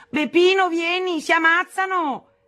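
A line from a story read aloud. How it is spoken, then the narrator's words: Shouting. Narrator (Italian): gridava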